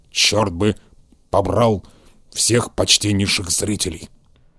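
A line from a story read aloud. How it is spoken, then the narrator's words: Grumbling. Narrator (Russian): проворчал он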